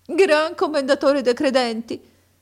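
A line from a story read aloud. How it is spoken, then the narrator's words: Sobbing and sighing. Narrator (Italian): rispose Abu Hassan con singhiozzi e reiterati sospiri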